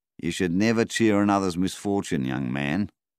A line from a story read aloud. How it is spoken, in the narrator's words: said Donnie